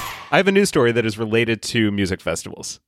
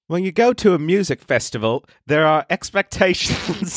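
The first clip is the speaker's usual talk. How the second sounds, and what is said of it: Deliberately bad British accent. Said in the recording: “I'm going to read it in a really bad British accent”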